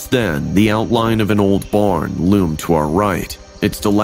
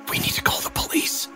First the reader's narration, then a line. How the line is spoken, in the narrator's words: whispered